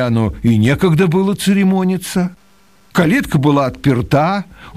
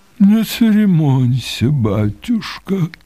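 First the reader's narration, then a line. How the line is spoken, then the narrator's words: Muffled, hollow. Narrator (Russian): отвечал тот глухо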